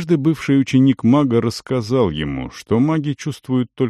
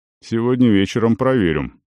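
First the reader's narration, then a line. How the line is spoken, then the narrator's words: Plain. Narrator (Russian): сказал Арон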